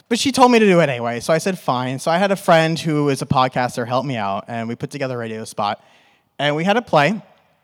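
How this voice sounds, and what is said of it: New York accent. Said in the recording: “I'm from New York, and now I'm in Arizona, and it's conflicting with my New York accent”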